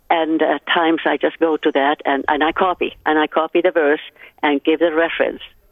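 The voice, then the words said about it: Distinctive foreign accent. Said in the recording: “You have the most beautiful accent.”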